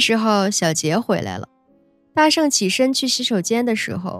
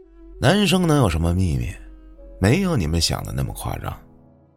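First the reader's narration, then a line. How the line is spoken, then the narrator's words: Flat. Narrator (Chinese): 淡淡的说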